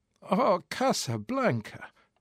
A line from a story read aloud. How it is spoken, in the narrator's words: Osip groaned